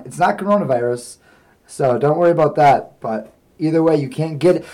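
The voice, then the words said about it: Voice nearly gone from screaming. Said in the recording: “my voice is gone because testing this microphone made me scream, and it is gone.”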